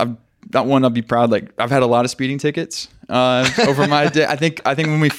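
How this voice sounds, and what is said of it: Usual voice. Nothing is said of it.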